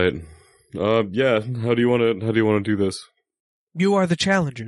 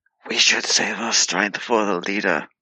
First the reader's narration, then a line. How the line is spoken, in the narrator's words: put my hands up to whisper in his ear